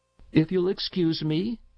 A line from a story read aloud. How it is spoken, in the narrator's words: said Bassett